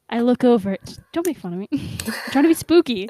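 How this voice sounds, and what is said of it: Cartoon character voice, spooky storytelling. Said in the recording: “You sound like Peridot trying to tell a horror story, but like failing miserably.”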